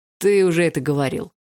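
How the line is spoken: Smirking grunt. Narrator (Russian): хмыкнул Барс

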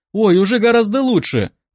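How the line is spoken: Joyful reply. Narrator (Russian): радостно ответила она

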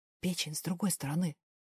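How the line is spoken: Smiling whisper. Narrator (Russian): шепнул Дэвил, не сдерживая улыбки

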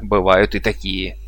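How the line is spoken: Loud laughter. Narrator (Russian): расхохотались вожди

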